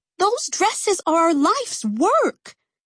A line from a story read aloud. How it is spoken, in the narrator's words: Cece cried